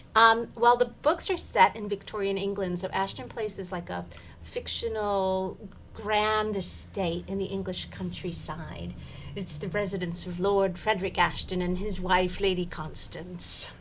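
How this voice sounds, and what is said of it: Slight put-on accent. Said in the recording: “I love the little accent that you're going into.”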